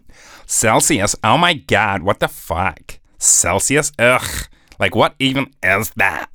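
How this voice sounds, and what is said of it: Mock American accent. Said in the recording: “my US listeners are going to be like, Celsius, what the fuck's that? Although they won't be saying it in that accent. ... That's what they'll be doing.”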